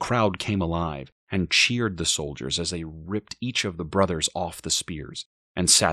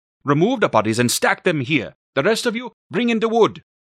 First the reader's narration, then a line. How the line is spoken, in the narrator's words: To the soldiers, he yelled